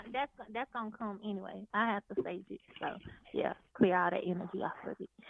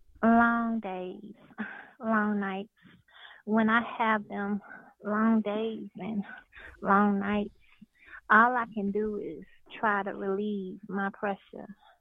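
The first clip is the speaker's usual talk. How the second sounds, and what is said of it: Sultry, seductive voice. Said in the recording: “I got to get in my sexy voice.”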